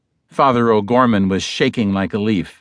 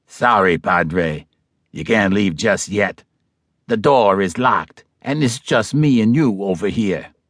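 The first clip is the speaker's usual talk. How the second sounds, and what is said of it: Bronx Italian ruffian accent. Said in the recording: “The accent was now Bronx Italian ruffian.”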